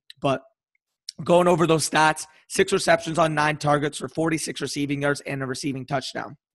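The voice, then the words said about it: Hoarse, partly lost voice. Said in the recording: “Kind of why I have my voice is lost right now, if you guys can hear that”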